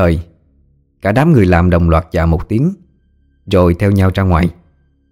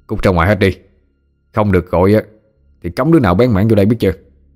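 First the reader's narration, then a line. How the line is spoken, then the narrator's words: Harsh, gritted shout. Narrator (Vietnamese): Hà Nhân gằn giọng quát lên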